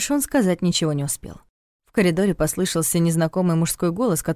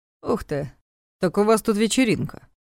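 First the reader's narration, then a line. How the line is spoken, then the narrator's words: Amused snort. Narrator (Russian): Хмыкнул он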